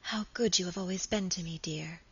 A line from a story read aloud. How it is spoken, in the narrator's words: she whispered softly